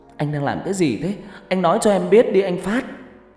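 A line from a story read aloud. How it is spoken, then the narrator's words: Choked, tearful voice. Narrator (Vietnamese): Hân nói bằng giọng nghẹn ngào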